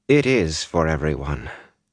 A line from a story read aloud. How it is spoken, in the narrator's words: she replied, just as gently, and a touch sadly